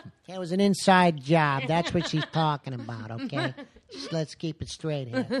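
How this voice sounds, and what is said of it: Usual voice. Nothing is said of it.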